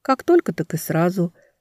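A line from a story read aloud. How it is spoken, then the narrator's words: Casual offhand remark. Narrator (Russian): уронила княгиня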